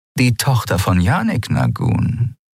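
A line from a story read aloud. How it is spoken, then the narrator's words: Purring. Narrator (German): schnurrte sie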